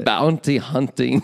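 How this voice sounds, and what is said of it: Poor attempt at German-accented impression. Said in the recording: “terrible Werner impression ... That's not even close ... You got to go deeper in gravelly”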